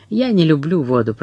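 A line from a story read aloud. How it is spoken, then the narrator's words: Gloomy tone. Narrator (Russian): произнес Жос с таким мрачным тоном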